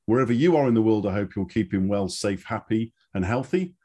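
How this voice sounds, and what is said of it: English accent. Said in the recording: “You can probably tell I have an English accent.”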